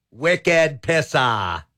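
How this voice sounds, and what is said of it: Attempted Boston accent. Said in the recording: “I tried to say that in a Boston accent.”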